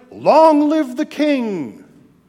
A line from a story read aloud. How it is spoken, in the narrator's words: All the people shouted